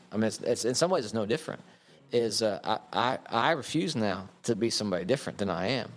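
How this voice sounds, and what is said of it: Western Oklahoma accent. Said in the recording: “a person who refuses to give up his Western Oklahoma accent”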